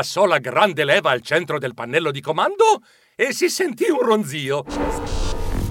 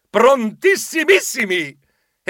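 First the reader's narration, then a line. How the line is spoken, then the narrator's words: Shouted in chorus. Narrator (Italian): Noi gridammo in coro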